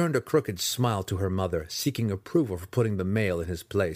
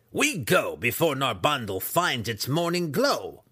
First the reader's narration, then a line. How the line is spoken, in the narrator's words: Breeza snapped at him with her thick but razor-sharp voice